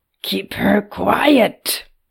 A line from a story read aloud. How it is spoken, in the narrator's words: Yodak grumbled